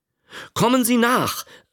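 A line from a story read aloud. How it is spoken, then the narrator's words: Called out. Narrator (German): rief er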